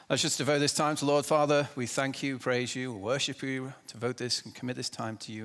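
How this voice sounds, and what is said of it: Speaks with a noticeable accent. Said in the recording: “Hopefully you can understand me. I have an accent”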